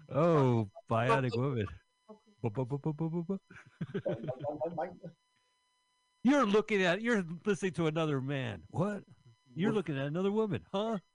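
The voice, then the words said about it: Imitates TV characters' voices. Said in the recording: “my impression, Carl, of the $6 million man and the bionic woman having sex”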